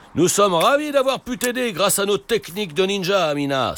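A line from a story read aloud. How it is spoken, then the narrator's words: Exclaiming. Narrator (French): s'écrie Papa Ninja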